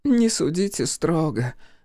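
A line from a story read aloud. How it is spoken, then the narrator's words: Pleading. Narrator (Russian): взмолилась миссис Дэвис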